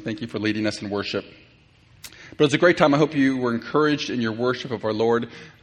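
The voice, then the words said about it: American accent. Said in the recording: “my normal American accent”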